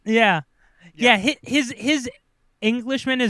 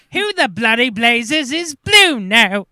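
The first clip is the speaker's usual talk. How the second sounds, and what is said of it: Terrible put-on British accent. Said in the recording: “his British accent is the worst”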